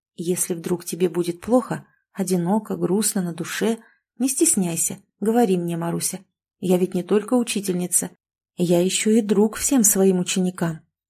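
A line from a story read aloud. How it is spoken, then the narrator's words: Quiet, gentle. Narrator (Russian): Катерина Ивановна тихонько сказала ей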